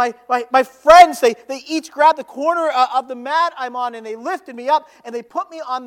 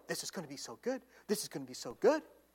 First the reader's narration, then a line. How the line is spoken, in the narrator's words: they just kept mumbling